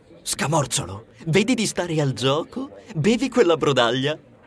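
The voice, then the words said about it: Whispering. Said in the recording (Italian): “mi sussurrò”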